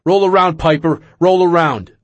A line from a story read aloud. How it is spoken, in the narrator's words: kept shouting